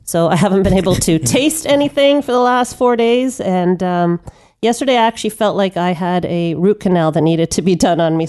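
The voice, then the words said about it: Congested voice from a cold. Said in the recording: “voice may sound a little funny ... When I started getting this cold ... my sexy voice is on right now”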